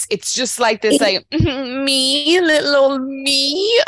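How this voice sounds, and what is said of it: Mock baby voice. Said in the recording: “baby voice”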